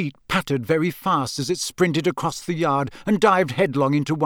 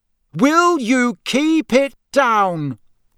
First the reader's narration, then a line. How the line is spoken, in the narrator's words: he bellowed